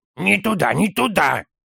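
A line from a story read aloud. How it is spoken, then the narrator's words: Child hissing. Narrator (Russian): прошипел малыш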